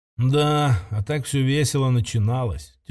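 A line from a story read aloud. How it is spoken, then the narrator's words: Heavy sigh. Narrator (Russian): тяжело вздохнул Кирилл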